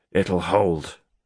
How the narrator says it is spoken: said Garrick grimly

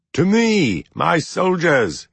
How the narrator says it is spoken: he shouted

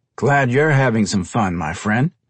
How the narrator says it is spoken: Tyrell said with a chuckle

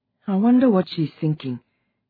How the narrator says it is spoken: Auntie Uju said sadly, musingly

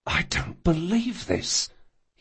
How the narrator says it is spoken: he whispered

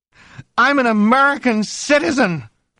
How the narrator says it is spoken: she cried suddenly

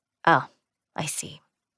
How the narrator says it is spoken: Aaron said a little faintly

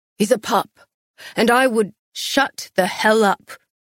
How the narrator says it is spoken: Castile growled

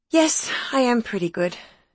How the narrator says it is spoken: sighed Olivia, as if it were quite a responsibility

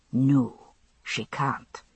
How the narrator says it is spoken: he agreed, still speaking softly

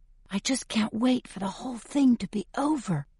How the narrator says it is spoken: I whisper

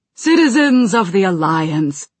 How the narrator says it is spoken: he said, his voice carrying to the eager listeners

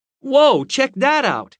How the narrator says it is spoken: I shouted

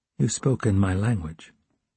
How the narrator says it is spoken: controlling himself, he said calmly

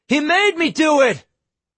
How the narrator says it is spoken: Quinn cupped his hands, and yelled

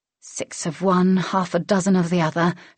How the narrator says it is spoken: she mumbled

